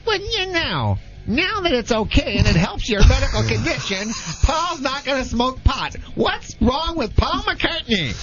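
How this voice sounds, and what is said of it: Imitates another person's voice. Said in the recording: “the Jay Leno impersonation”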